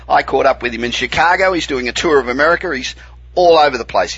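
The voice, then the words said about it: Australian accent. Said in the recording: “all American accents, apart from this one... your accent never, ever goes away”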